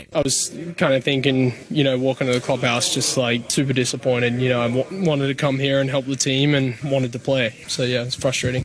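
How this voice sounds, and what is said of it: Australian accent. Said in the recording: “Yes, that's an accent you're hearing. He's Australian by birth.”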